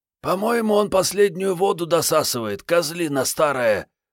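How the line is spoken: Hoarse rasp. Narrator (Russian): прохрипела наблюдательная Мариетта

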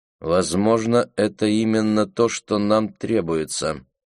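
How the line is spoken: Displeased tone. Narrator (Russian): произнесла Роуз все тем же недовольным тоном

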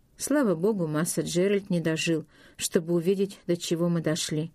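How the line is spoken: Muttering. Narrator (Russian): Порк бормотал

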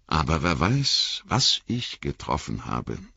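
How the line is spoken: Plain. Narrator (German): sagte Legolas

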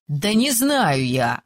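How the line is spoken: Snapping. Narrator (Russian): огрызнулся Айгер

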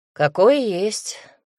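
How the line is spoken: Amused snort. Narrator (Russian): хмыкнул

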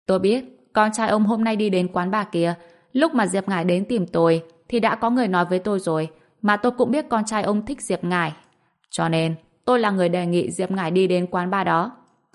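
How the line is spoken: Flat, indifferent. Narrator (Vietnamese): Bạch Diệc Phi trả lời bằng giọng nhàn nhạt

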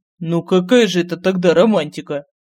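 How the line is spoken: Scoffing snort. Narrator (Russian): фыркнул Лорин

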